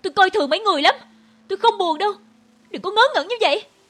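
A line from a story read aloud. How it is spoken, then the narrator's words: Furious shout. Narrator (Vietnamese): Tim tôi đầy lửa, đầu tôi muốn vỡ ra, tôi hét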